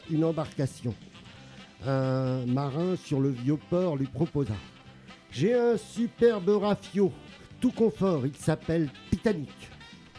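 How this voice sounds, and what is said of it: Southern French accent. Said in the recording (French): “tu as un super accent du sud”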